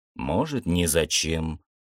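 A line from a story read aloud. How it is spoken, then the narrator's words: Muttering. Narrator (Russian): Слух пробормотал я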